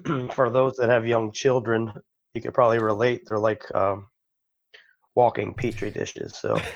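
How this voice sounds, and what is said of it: Raspy, hoarse voice. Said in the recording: “my raspy voice. I am getting over a bug.”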